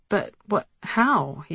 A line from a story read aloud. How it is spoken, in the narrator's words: sputtered